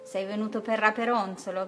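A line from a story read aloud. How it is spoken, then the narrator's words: Witch shouting. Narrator (Italian): gridò la maga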